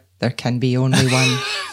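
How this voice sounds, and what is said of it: Put-on Scottish accent. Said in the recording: “Said so well with the Scottish accent”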